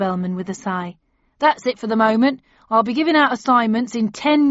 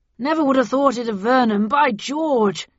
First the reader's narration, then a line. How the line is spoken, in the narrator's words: exclaimed Bradshaw